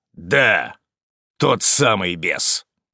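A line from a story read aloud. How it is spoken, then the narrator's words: Hoarse rasp. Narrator (Russian): прохрипел Быков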